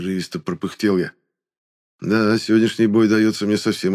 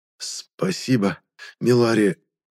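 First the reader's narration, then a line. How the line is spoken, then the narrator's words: Forced out. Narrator (Russian): выдавил я в ответ на похвалу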